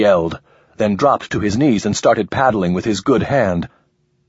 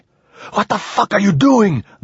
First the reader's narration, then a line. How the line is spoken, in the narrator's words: the man shrieked